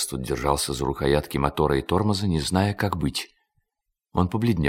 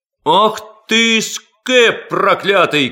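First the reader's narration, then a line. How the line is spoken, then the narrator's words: Crowd shouting. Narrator (Russian): кричала толпа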